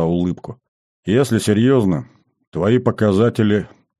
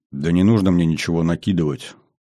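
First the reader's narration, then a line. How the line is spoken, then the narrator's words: Absent-minded grumble. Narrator (Russian): Автоматически буркнул Кобрин, думая о своем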